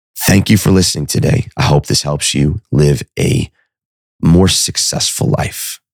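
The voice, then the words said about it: Impaired, unwell-sounding voice. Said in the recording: “I apologize for my voice again.”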